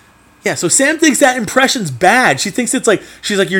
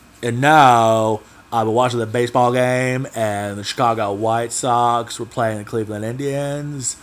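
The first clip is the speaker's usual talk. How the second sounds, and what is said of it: Forrest Gump impression. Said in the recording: “Sam thinks my impression is horrible. But I think it's really good ... I do a pretty good impression ... you're doing too much McConaughey ... That is the Forrest Gump impression”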